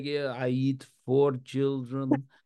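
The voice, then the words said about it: Thick Slovakian accent. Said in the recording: “Thick ... Slovakian good. Accent.”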